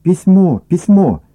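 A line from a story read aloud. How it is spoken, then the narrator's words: Joyful shout. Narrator (Russian): радостно закричала Аня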